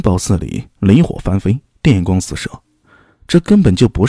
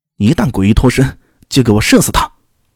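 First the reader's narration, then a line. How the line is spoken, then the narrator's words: Young man, stern shout. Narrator (Chinese): 年幼的青年厉声喝道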